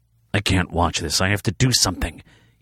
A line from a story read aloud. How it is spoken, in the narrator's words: he hissed